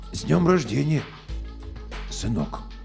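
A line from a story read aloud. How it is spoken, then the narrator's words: Strange hoarse voice. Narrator (Russian): Я ответил чужим, хриплым голосом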